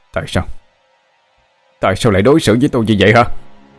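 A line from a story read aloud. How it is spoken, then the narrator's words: Loud furious shout. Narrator (Vietnamese): Tôi hét lớn đầy căm phẫn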